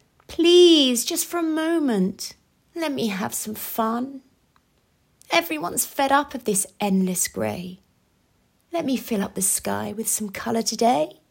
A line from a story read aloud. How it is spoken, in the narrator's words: She pleaded